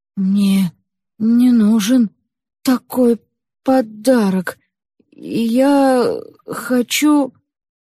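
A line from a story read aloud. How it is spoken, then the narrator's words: Confused whisper, young man. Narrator (Russian): Юноша растерянно прошептал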